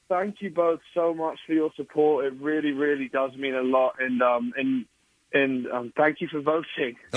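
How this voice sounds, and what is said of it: London-sounding English accent. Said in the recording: “He sounds like you're from London.”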